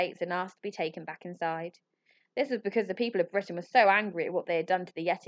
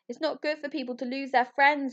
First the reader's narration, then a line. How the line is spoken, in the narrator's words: wailed Ambrose